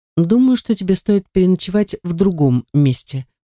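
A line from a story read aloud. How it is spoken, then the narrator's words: Even tone. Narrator (Russian): ровным тоном произносит Алер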